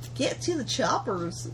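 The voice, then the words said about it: Hick accent. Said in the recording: “Sound like a hick. ... That's just your go-to accent.”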